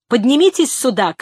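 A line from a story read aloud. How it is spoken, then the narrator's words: Shout. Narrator (Russian): крикнул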